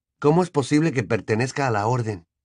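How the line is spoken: Quiet question. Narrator (Spanish): preguntó Harry, también en voz baja

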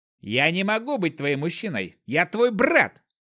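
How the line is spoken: Yelling. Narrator (Russian): заорал

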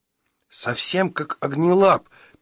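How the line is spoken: Squeaking. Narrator (Russian): пискнул Шустрик

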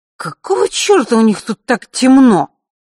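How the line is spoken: Cursing through gritted teeth. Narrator (Russian): ругался Андрей сквозь зубы

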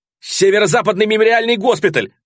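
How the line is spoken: Yelling. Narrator (Russian): завопил я

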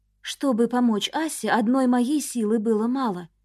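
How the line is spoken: Quiet start. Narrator (Russian): тихо начала

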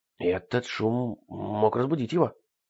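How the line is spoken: Anxious whisper. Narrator (Russian): встревоженно прошептал Ларри

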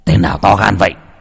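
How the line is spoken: Startled shout. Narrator (Vietnamese): Trần lão gia giật mình quát lên

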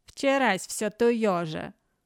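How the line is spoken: Muffled, hollow, weary voice. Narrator (Russian): Глухо, как из бочки опостылевший говор Бакоты

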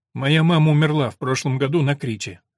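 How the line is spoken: Sharp reply. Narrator (Russian): резко ответил Билли

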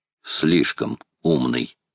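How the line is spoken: Quiet reply. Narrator (Russian): тихо отозвался Макнапс

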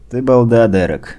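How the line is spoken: Tired. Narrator (Russian): устало сказал

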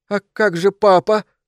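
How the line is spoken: Sobbing. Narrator (Russian): всхлипнул он

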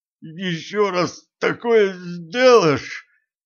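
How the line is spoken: Strangled moan. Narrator (Russian): сдавленно простонал Кощей

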